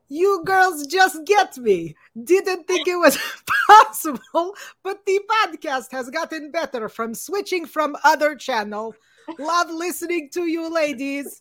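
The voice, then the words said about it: Gru impression accent. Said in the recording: “Gru. I turned into Gru. ... whose accent you like the best”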